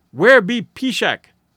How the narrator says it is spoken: an old squaw queried sharply

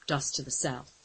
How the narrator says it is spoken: reported grimly

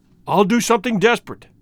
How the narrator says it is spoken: he cried

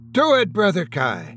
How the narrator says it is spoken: Andrew Miller snapped

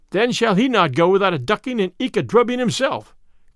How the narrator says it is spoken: cried Will Stutely

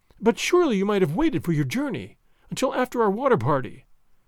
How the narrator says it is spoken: she said, still speaking quickly and nervously

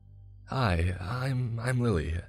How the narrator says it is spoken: the woman said in a nervous tone

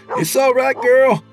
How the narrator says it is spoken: Eric shouted

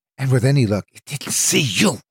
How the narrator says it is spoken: she hissed

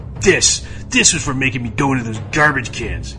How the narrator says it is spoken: he growled

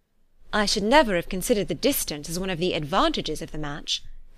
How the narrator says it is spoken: cried Elizabeth

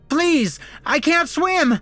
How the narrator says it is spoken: the accountant kept screaming

